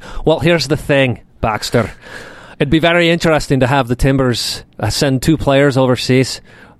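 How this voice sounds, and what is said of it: Put-on Irish-leaning accent impression. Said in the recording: “my best Craig Burnley impersonation ... Now I'm doing more Irish.”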